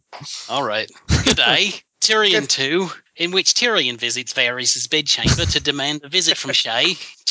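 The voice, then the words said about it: Put-on Australian accent. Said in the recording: “I want to hear an Australian accent ... just do a Paul Hogan?”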